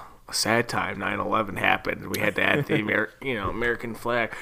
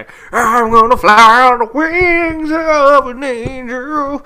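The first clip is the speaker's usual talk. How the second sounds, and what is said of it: Imitates another person's singing voice. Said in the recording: “my Chad Kroger impression”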